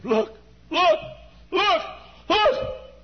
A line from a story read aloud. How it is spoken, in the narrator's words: One of us screamed